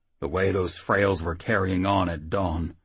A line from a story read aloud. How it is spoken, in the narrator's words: Oates grumbled